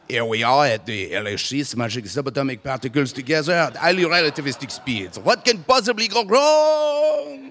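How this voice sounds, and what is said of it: Put-on French accent. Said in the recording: “there's a chance that scientist would have a French accent.”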